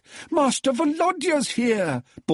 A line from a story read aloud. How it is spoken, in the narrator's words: bawled